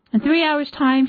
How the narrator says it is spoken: said

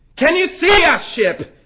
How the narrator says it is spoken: cried

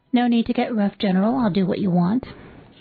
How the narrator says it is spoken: calmly said

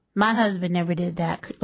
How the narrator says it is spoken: Loretta says

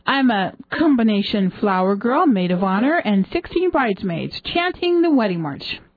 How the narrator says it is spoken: she laughed

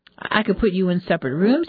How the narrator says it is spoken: said

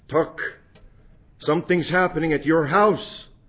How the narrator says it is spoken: She stopped us with a frightened look upon her face and exclaimed

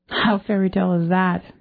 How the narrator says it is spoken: Tony laughed again

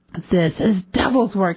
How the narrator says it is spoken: he said angrily

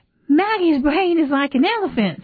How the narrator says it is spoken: Wang Jero said, laughing

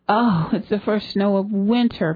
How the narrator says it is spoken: people mumbled

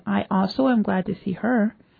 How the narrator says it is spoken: quietly replied

